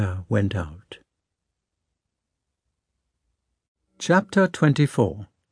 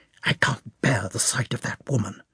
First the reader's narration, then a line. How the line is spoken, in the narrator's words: the princess whispered